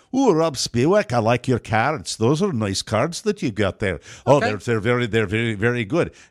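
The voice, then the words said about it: Imitated thick Scottish accent. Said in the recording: “He's got a very thick Scottish accent, but very easy to understand.”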